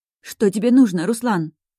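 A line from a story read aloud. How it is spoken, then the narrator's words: Mother's voice trembling with fear. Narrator (Russian): Голос мамы испуганно дрожит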